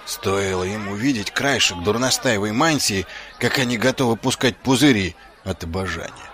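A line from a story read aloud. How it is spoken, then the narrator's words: Muttered. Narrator (Russian): пробормотал он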